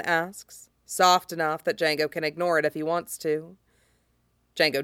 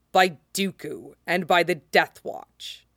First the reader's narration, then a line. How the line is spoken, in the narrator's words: he says roughly